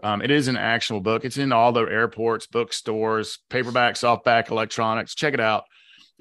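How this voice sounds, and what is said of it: Southern American accent. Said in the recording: “Southern accent”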